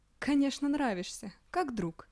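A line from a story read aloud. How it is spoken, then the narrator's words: Laughing girl's reply. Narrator (Russian): смеясь, ответила девочка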